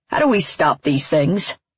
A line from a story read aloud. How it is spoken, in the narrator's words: Dad asks gruffly